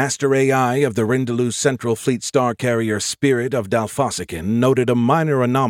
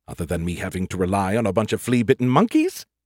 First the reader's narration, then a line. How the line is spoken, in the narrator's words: the beer can muttered